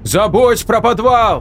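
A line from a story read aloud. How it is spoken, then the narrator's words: Almost shouting. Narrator (Russian): Настя почти кричала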